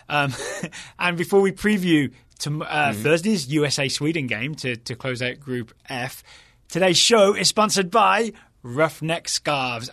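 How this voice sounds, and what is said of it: Speaks with a noticeable accent. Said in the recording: “obviously, because of, you know, my accent.”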